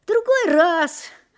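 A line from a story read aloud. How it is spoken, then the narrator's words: Relieved sigh. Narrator (Russian): облегченно вздохнул Шурик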